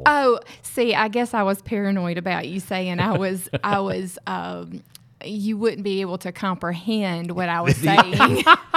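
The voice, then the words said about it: Southern American accent. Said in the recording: “your amazing Southern accent”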